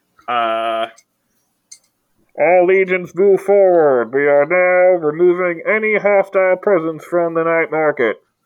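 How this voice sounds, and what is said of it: Character voice of Blackwell. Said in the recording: “do his voice again? The Blackwell.”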